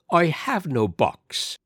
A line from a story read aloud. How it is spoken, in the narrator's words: said Flannery coldly